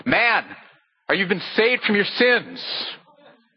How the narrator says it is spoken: he shouted out to him

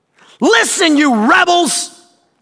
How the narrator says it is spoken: shouted

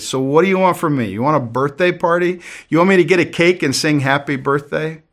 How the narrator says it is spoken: Her friend, one of the other ladies, responded kind of sarcastically

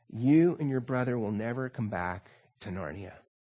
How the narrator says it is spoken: said Aslan very gently

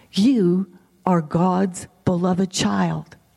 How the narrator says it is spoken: he whispers into our innermost being

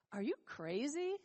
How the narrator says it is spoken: sneered

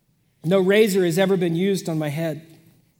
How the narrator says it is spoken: he said

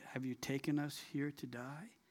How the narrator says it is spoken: They murmured at Marah

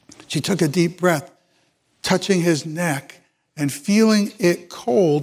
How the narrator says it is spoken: she whispered a prayer

